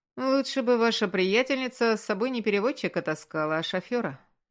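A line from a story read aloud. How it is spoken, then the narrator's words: Mocking male voice. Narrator (Russian): насмешливо ответил мужчина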